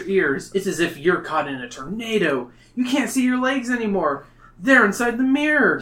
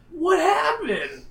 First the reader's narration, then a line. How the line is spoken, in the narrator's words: Jason cries